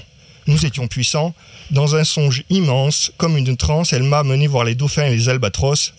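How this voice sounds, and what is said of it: Southern French accent. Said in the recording (French): “avec un accent ah, On même tel au sud là.”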